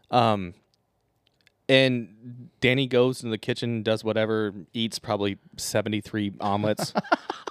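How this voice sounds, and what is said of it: Hoarse, strained voice. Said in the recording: “you hear my throat right now? ... I think I'm losing my voice.”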